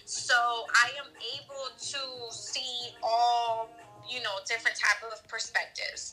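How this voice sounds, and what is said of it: Venezuelan Hispanic accent. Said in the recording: “I'm not sure if you guys can tell by my accent, but I am Hispanic. I'm Venezuelan.”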